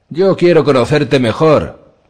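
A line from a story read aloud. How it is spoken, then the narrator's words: Shout. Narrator (Spanish): gritó alguien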